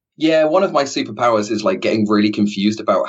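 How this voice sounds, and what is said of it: Usual voice. Nothing is said of it.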